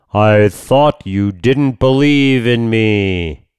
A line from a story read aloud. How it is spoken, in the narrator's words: a booming voice came out of the clouds and said